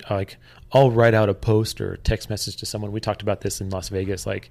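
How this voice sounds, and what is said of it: Dry, strained-sounding voice. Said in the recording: “my voice today is especially strange because I'm my voice is so ... dry, my throat's dry”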